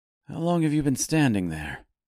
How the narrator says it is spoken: asked Fink nervously

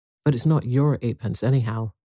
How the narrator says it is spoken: said Cyril coldly

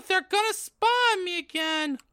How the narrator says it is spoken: I cried, running out of the changing room

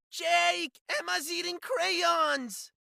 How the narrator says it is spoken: Bella wailed

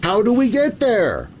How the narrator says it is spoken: the newborn 19th cried, filled now with knowledge

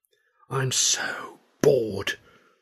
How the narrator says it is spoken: Wren murmured

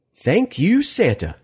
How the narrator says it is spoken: she said cheerfully

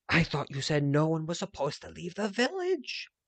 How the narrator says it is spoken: Sab gasped

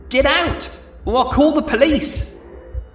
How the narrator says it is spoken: yelling

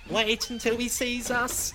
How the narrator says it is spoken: the truck giggled

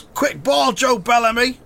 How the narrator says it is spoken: Roy shouts

